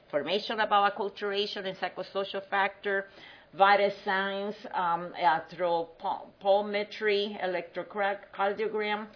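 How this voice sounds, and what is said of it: Spanish-accented English. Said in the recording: “Forgive my accent. When you're trying to go fast, you mix your English and your Spanish”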